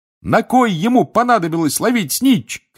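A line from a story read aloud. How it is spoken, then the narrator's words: Excited shouting. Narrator (Russian): кричал Рон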